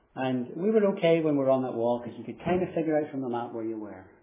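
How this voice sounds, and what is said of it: Irish accent. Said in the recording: “You can tell from my accent, I come from Ireland.”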